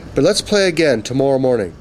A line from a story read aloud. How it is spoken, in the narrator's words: he added with a sigh